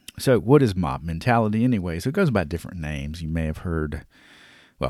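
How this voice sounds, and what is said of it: Usual voice. Nothing is said of it.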